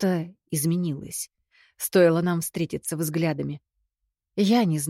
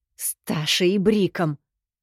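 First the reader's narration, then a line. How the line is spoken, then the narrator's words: Through gritted teeth. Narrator (Russian): сквозь зубы процедила я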